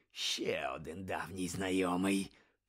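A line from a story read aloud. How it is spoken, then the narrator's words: Growled. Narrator (Ukrainian): прогарчав Муді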